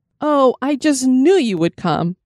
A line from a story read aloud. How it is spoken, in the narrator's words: Sarah exclaimed